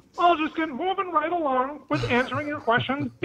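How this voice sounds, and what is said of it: Kermit the Frog character voice. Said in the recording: “Who's ... impersonating this time? ... my lean, not-so-mean and green amphibious friend, Kermit”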